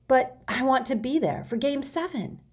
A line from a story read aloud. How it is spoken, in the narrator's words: begged